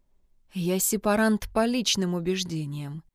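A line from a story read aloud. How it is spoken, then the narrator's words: Gently objecting. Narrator (Russian): мягко возразил отец Хавьер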